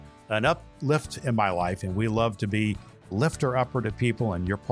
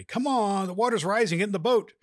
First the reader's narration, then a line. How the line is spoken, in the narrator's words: the rescuers shouted to him